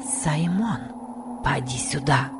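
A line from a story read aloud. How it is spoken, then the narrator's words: Whispered. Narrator (Russian): прошептала Касси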